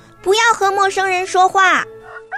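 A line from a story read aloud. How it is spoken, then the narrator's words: Shouting. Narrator (Chinese): 小红鸡 他叫道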